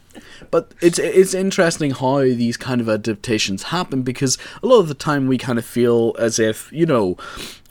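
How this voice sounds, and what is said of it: Northern Irish accent. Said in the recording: “the Northern Irish accent is already very testosterone”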